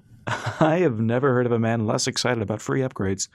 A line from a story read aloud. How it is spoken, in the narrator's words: Flint said with a laugh